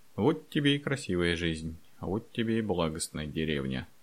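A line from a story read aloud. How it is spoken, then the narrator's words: Muttered under breath. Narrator (Russian): пробормотал под нос Андрей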